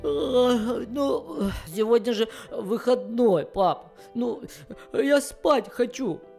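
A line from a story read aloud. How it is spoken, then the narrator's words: Sleepy mumble. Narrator (Russian): бормотал сонный песик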